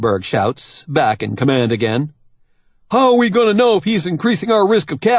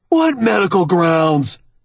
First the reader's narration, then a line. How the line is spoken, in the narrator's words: Monkberg shouts, horrified